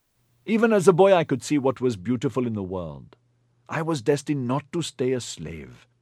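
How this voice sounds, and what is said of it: East Indian accent narration. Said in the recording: “John Lee captures this imperfect world, astounding listeners with his East Indian accent”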